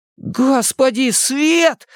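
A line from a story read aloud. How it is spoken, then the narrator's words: Shout. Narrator (Russian): закричал Ричи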